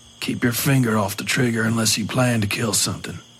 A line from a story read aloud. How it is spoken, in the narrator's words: the priest said in a low voice